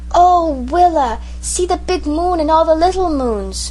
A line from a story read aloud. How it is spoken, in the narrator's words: when he saw the stars he exclaimed